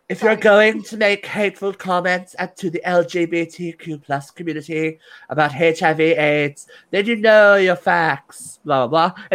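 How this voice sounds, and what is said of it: Poor imitation of another person's voice. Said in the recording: “my really bad Madonna impression”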